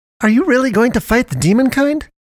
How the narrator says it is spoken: suddenly chirped in awe

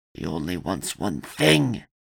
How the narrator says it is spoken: the thing growled

